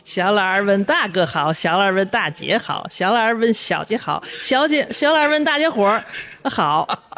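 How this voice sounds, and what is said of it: In-character regional drama accent. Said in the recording (Chinese): “用他特有的一个口音，在剧中的一个口音 ... 还是当时那个声儿”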